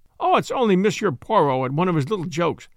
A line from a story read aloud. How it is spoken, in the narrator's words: he exclaimed